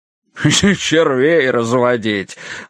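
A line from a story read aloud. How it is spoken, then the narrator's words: Laughing loudly. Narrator (Russian): Боярд начинает хохотать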